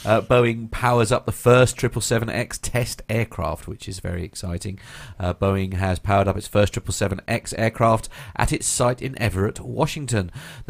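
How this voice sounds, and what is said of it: Congested voice from a cold. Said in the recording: “I have got a bit of a cold,”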